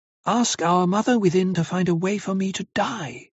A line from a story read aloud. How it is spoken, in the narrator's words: he pleads